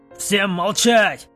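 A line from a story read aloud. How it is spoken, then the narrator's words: Loud commander's shout. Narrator (Russian): Громко крикнул их командир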